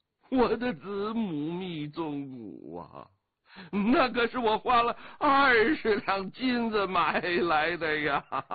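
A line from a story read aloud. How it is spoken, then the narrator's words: Turning fierce. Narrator (Chinese): 飞鸿笑的笑容渐渐的变得凌厉起来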